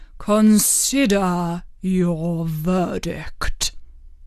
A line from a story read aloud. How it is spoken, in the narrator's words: he said to the jury in a low, trembling voice